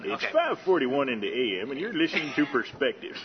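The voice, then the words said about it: Announcer-style radio voice. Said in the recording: “When you start talking, the radio voice comes out.”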